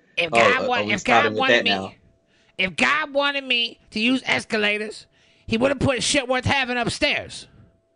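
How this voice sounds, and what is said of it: Imitates another person's voice. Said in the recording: “that was the worst impression of ... impression of you ... I thought you were talking for a second there”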